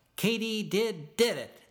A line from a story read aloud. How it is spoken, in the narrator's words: they'd shout